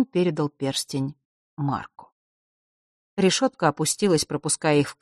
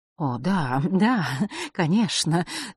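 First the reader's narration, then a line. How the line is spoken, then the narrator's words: Hurried, slightly frightened. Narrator (Russian): торопливо и немного испуганно произнесла она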